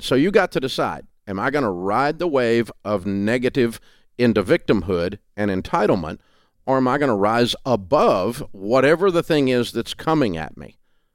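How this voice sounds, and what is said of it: Southern US drawl. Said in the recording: “I have a Southern accent. I'm in Nashville, Tennessee ... that hillbilly drawl ... drop that accent”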